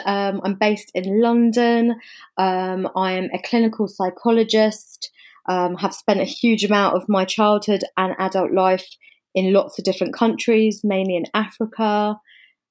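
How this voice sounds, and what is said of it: English accent. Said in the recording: “you can probably hear from the accent. I'm English.”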